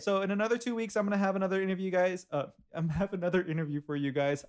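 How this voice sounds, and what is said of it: Very fast speech. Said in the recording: “I'm talking so fast right now”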